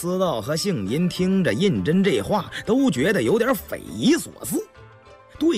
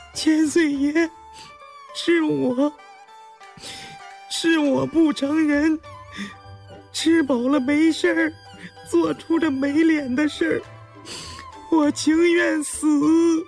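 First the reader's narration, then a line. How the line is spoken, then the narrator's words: Terrified, sobbing. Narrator (Chinese): 越发唬得浑身发抖，连连在地下磕头抽泣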